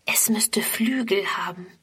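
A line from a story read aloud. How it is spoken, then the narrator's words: Whisper. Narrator (German): flüstert Friedrun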